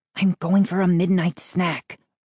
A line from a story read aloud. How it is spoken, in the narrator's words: I whispered